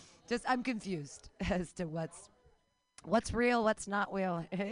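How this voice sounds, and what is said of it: Usual voice. Nothing is said of it.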